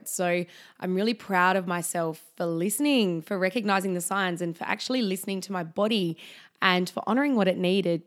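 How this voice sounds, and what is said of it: Husky, croaky voice. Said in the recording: “my voice is a little bit husky or a little bit croaky, it's just because I've just been a little bit under the weather”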